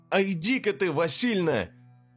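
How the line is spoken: Angry outburst. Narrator (Russian): в сердцах как выкрикну

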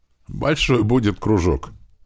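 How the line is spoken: Short laugh. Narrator (Russian): хохотнул Туман

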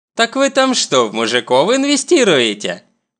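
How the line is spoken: Snide question. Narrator (Russian): ехидно интересуется Сун Йон

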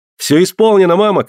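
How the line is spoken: Shouting from afar. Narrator (Russian): кричал он издали

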